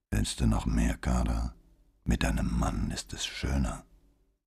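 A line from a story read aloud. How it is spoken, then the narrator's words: Whisper. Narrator (German): flüsterte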